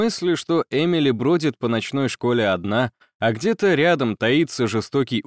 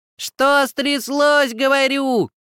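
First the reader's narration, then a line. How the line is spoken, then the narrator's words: Loud shout, as to deaf. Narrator (Russian): прокричала фея, как для глухого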